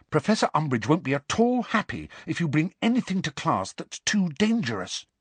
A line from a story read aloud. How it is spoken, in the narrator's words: said Hermione urgently, dropping all pretense